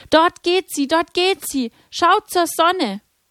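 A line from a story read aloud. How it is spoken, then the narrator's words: Calling out. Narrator (German): Lucia rief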